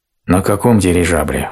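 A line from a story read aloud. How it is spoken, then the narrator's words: Dejected voice, little bear. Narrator (Russian): упавшим голосом спросил медвежонок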